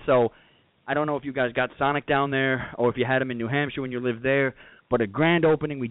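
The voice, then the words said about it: Out of breath, panting speech. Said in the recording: “you're out of breath right now ... I'm out of breath ... I was running”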